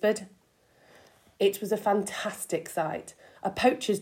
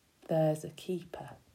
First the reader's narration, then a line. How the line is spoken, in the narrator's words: he said softly